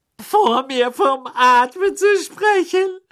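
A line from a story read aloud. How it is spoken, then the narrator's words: Shrill, echoing loudly. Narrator (German): sagte sie schrill, und ihre Stimme hallte laut im Badezimmer wieder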